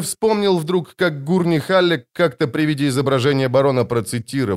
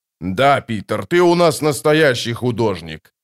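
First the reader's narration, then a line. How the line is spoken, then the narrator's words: Growl. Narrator (Russian): прорычал барон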